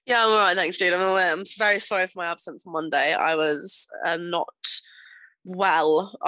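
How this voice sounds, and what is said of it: Rough, recovering voice. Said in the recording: “I'd have been a little squeaky voice. I probably sound still a bit rough”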